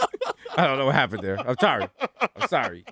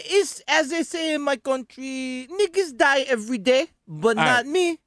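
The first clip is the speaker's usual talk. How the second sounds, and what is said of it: Bad put-on accent that falls apart. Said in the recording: “I don't know what accent that was. That accent just fell apart. ... such a bad accent”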